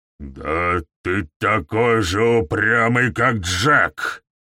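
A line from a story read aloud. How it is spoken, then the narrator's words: Growled. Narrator (Russian): рыкнул Гаур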